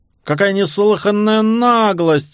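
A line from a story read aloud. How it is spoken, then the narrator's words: Shouting, voice breaking. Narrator (Russian): закричал Сирил срывающимся голосом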